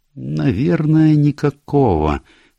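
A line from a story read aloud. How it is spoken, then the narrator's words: Slow. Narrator (Russian): медленно ответила Джулия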